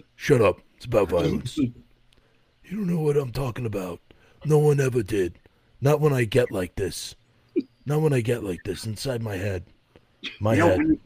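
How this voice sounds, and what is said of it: Gravelly old mafia-style character voice. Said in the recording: “you do that voice ... the germ that's in Bill Murray's armpit. That's what your Glenn sounds like ... like an old mafia freaking germ”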